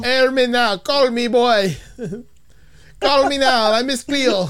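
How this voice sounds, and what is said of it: Miss Cleo impression, fake Caribbean accent. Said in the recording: “she did the Miss Cleo. Air me now. ... I don't think she's Jamaican. ... it was a fake Haitian accent.”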